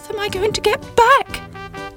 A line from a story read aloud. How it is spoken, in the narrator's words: cried Sybil